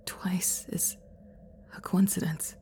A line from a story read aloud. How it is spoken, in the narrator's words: I muttered uncertainly